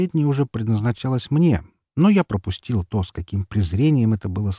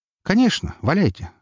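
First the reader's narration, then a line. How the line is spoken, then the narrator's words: Calm reply. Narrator (Russian): спокойно отозвался я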